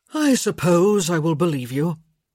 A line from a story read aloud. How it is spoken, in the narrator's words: he said with a sigh